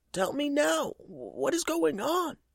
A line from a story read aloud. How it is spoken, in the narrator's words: he yelled